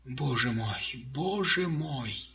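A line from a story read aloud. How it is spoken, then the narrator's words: Muttering. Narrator (Russian): бормотал он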